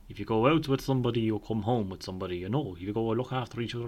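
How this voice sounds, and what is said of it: Put-on Irish country accent. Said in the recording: “I don't know why I said that accent. He's not a countryman... In my mind, the responsible voice is... a country voice.”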